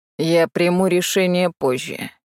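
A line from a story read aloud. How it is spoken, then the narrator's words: Grumbled. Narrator (Russian): пробурчал Теньмо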